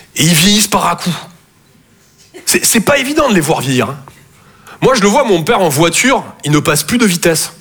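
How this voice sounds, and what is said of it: Southern French Toulouse accent. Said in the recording (French): “Je viens de Toulouse, à la base. Ouais, ça s'entend un peu... mon accent”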